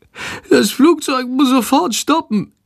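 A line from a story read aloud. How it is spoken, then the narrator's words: Groaning. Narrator (German): stöhnt Shandor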